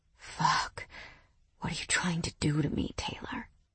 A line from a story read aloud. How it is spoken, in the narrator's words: Mason whispered pleadingly